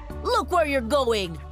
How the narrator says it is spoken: the driver shouted at me

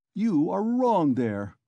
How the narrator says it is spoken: cried Porfiry Petrovitch

